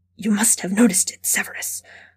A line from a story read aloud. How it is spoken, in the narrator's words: Karkaroff said in a hushed voice